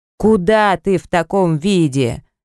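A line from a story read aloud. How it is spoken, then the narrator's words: Yelling. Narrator (Russian): вопит Виктор Алексеевич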